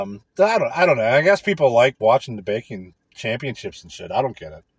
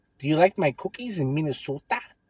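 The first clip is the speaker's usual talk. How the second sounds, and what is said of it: Put-on Midwest American accent. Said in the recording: “some fucking Midwest accent.”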